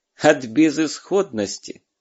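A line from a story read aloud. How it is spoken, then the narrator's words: Pleased laughter. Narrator (Russian): довольно засмеялся Бергер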